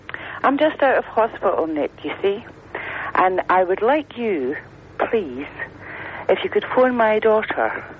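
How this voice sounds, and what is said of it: Put-on posh Edinburgh Morningside accent. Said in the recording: “I put my posh voice on now, you see. This is my Friday voice. ... This is your Morningside accent.”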